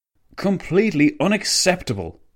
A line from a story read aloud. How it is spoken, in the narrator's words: the Italian premier spat